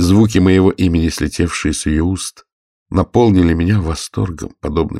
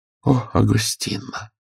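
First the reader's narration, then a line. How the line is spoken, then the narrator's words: Sad. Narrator (Russian): печально ответила она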